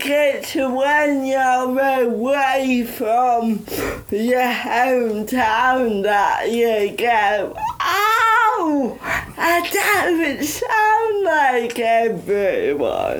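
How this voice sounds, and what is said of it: Yorkshire accent. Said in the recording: “I always say my accent was disabled ... I turn up my accent ... the Yorkshire accent”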